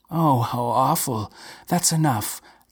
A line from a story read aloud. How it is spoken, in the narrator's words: gasped Maria